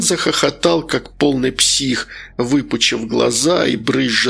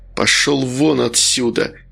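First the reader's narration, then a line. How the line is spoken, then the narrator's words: Through clenched teeth. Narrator (Russian): процедил Вениамин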